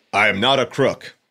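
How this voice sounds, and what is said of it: Impression of Richard Nixon. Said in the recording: “Nixon declares to the world ... Great impression.”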